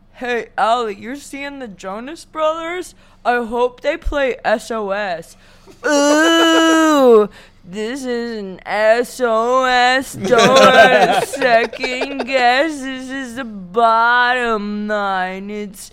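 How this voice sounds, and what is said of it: Imitates another person's voice. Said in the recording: “That's a really good impression... Yeah, that was perfect.”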